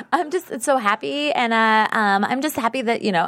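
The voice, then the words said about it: Impression of Lily. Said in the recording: “do a better Lily impression ... That was pretty good.”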